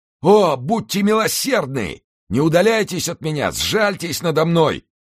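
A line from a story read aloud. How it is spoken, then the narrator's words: Young man shouting. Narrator (Russian): кричал молодой человек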